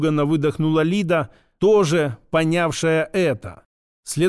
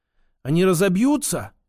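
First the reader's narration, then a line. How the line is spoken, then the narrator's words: Frightened whisper. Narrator (Russian): испуганно прошептала Лида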